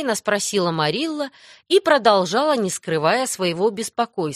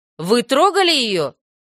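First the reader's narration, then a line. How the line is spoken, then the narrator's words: Stern question. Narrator (Russian): строго спросила Марилла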